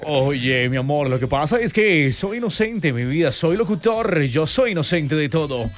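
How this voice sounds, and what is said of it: Radio announcer voice. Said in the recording (Spanish): “sacamos nuestra voz de locutor”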